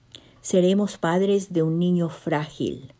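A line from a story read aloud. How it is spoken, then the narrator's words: Long sigh. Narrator (Spanish): suspiró largamente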